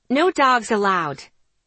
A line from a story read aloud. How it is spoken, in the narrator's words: the tall woman snapped